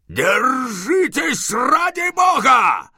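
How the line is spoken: Sharp shout. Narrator (Russian): он резко закричал

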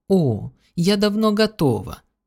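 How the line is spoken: Enthusiastic old woman exclaiming. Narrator (Russian): с энтузиазмом воскликнула старуха

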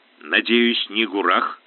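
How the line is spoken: Grumbled. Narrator (Russian): проворчал Ставр

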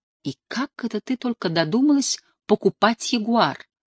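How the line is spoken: Tender greeting. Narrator (Russian): нежно приветствовал меня любимый

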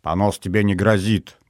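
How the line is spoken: Grumbling. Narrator (Russian): проворчал

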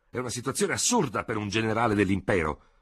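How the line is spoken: Shouted with stunned conviction. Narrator (Italian): gridò Ferò, con accenti di profonda e sbigottita convinzione

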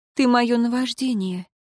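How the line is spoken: Slightly sad, smiling. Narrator (Russian): немного грустно улыбнулась тогда Лейра

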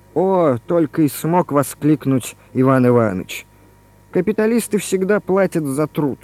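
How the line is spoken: Half-joking through teeth. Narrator (Russian): То ли в шутку, то ли всерьез процедил

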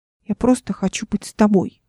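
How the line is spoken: Stubborn mumble. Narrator (Russian): упрямо пробормотала Ника

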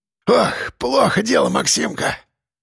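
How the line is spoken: Wheezing breathless old man. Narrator (Russian): просипел дед, задыхаясь

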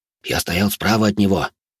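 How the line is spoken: Excited whisper, bearded man. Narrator (Russian): возбужденным шепотом говорил тощий бородатый мужик

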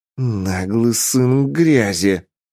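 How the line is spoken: Growl. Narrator (Russian): прорычала Варейна

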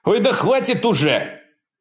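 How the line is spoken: Shouting. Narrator (Russian): прокричал Джефф

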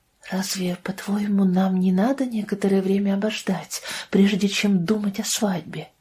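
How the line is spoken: Quiet question. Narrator (Russian): спросила тихо

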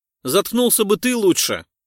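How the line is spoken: Barked. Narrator (Russian): рявкнул азиат

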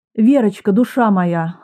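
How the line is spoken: Tender question. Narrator (Russian): ласково спросила

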